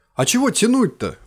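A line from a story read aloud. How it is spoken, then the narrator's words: Exclaimed. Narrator (Russian): воскликнул Кин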